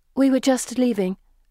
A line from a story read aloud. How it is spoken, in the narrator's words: Felicity says